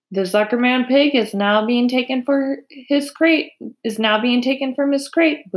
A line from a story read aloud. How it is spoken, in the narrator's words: boomed the voice of the loudspeaker